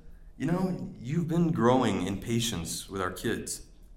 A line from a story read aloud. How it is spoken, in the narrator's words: she just quietly says